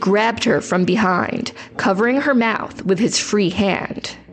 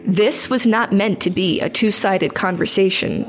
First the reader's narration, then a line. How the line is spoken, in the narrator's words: he said